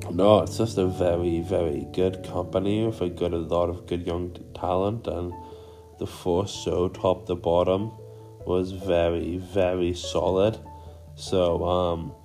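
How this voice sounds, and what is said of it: Raspy, sore voice. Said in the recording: “I am sorry if this sounds a bit raspy. I have just a really sore voice. I'm a bit of a head cold”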